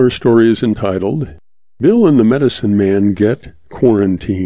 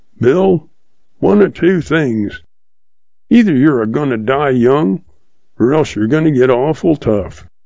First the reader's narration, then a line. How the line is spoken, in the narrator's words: He busts out laughing and says